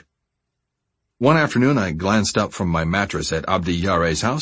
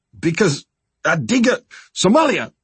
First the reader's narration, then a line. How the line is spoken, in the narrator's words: he shouted in our broken language